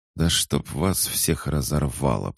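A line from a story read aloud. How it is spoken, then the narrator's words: Furious strained whisper. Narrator (Russian): прошептал я, бешено дернувшись в третий раз и тут же ощутив, как кровь быстрее побежала по горлу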